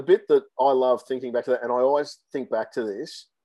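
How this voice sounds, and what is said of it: Thick Australian accent. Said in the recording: “the thick Australian accent”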